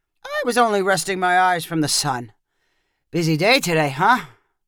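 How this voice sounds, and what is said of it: Startled muttering old man voice. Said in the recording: “muttered her grandpa in a startled voice.”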